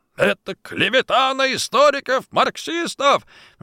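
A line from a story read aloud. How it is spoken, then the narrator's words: Furious shout. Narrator (Russian): крикнул вне себя от ярости завкадрами Райпотребсоюза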